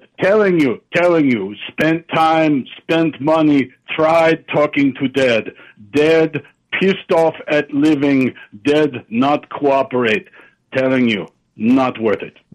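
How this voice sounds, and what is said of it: Mixed put-on Russian/Transylvanian accent. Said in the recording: “maybe you are Russian ... Now you sound Transylvanian, caller. This is, look, if you're going to call in with an accent, you should pick one, not five.”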